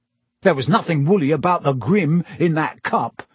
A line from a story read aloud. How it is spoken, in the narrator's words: said Ron hotly